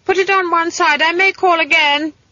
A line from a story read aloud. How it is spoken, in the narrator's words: shouted